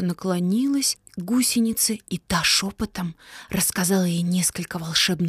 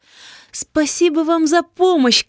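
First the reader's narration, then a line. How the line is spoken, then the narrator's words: Shout, cloud. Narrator (Russian): крикнула тучка гусенице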